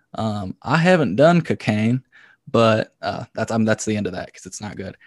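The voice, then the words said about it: Put-on Southern accent. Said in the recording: “I'm going to employ my Southern accent.”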